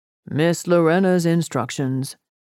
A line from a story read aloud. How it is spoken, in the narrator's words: Horatio said, as he gazed sadly